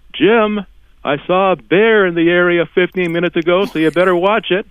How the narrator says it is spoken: Eric suddenly yells out

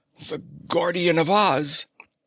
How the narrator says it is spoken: Queen Ra, recognizing Ozana, gasped

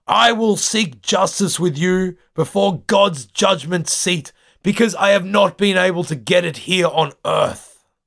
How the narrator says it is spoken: He yells out to Pelsart and the ship's council

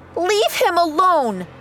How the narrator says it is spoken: She yelled

